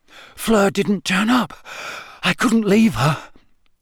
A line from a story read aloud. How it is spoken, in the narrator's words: Harry panted